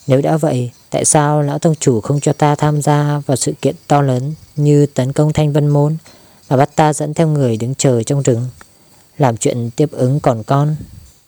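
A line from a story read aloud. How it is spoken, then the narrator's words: Sighing. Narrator (Vietnamese): Người trẻ tuổi thở dài rồi nói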